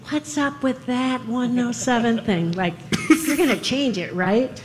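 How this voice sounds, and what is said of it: Imitates another person's voice. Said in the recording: “that's a really good Dan imitation... It's not whiny enough.”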